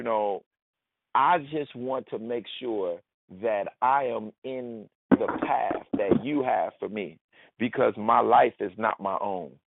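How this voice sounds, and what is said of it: Southside Chicago accent. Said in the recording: “my Southside Chi-Town accent.”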